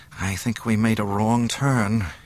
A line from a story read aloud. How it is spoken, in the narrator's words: he murmured